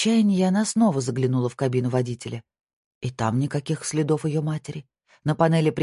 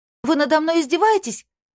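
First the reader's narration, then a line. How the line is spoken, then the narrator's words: Shout into night. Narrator (Russian): крикнула она в ночь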